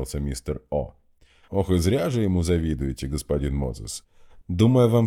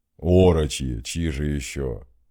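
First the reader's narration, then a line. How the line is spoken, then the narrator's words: Booming, then loud guffaw. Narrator (Russian): прогудел Гундахар и вдруг громко заржал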